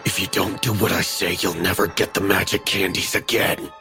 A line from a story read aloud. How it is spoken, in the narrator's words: Carl hissed